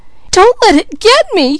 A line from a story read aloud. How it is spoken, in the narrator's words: cried Peaches